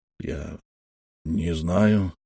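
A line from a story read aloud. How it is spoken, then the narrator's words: Strained, forced out. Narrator (Russian): выдавил Николас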